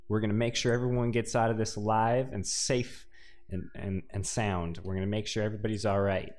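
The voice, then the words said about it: Put-on Texan accent. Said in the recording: “I don't know why I'm taking on this accent. Suddenly from like Texas.”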